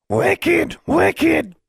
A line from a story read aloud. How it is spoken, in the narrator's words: Charlie shrieking